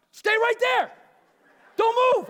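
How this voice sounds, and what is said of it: Yelling to someone far away. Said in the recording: “And I'm yelling at him because I'm far away.”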